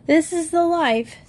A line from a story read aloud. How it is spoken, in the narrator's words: said Jody happily to himself